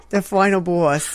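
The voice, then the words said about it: New Jersey accent. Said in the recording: “in your Joyzy accent... There it is.”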